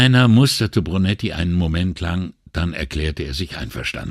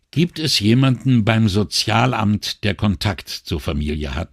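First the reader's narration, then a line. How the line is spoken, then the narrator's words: Plain question. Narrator (German): fragte Brunetti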